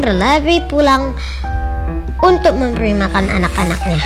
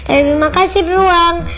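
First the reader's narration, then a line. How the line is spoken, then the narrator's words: Happy shout. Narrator (Indonesian): Dengan senang hati sambil berteriak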